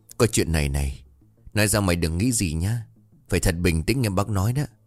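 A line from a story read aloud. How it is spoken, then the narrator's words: Hesitant, sighing. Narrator (Vietnamese): Bà Hòa thở dài một hơi rồi ngập ngùng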